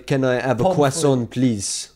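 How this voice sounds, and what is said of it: English spoken in mock French accent. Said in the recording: “speaks English in a French accent ... I speak English in a French accent”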